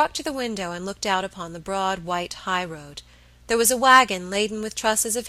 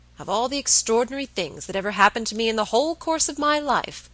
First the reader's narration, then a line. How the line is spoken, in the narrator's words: said Mr